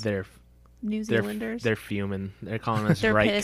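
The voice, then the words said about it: Bad put-on Australian accent. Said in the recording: “that was a terrible accent”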